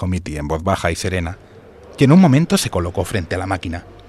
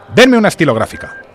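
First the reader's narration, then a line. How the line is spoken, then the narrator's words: Curt, dry. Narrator (Spanish): dijo secamente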